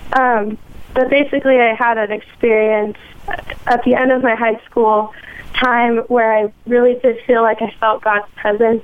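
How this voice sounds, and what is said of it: Hoarse, strained sick voice. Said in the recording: “my voice is gone. I'm kind of sick. ... I don't normally sound like this.”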